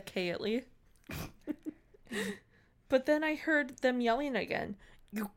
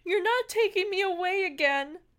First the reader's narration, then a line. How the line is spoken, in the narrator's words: I yelled